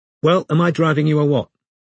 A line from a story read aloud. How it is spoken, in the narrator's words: She asked curtly